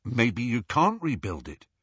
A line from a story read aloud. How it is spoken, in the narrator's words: Harry replied